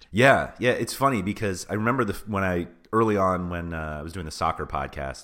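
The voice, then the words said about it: Deeper, rougher voice than usual. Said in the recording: “I'm battling a bit of a cold, so my voice is a little different. I've been coughing nonstop... You sound very mature and experienced.”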